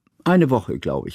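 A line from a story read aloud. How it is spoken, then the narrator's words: Plain. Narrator (German): sagte Johanna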